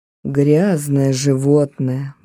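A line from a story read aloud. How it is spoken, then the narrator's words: Muttering. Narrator (Russian): бормотала Кросби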